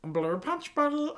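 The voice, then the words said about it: Stitch impression. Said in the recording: “You can do a really good Stitch impression.”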